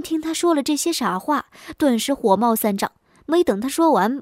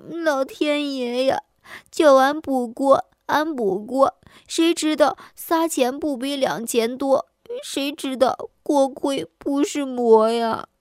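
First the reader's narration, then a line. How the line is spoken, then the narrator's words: Woman crying, aggrieved. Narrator (Chinese): 女的很委屈，一行鼻涕两行泪，边哭边说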